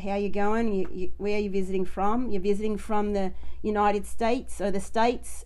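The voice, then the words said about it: Weak put-on Australian accent. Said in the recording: “My Australian accent's not as good”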